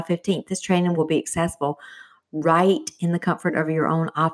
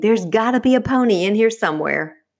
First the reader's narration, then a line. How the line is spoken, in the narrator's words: with a big smile, a smile bigger than the state of Texas, he screamed